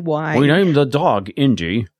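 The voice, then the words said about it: Imitates another person's voice. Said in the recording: “That's a Sean Connery imitation. Well, very good.”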